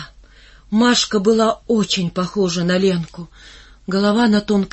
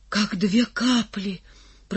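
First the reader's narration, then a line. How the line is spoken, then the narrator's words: Whisper. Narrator (Russian): прошептал Лохматый и заорал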